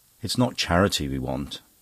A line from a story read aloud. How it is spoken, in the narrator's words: Anne murmured rebelliously